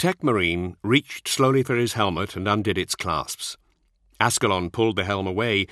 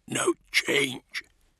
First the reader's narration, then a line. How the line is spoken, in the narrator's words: he said in a husky voice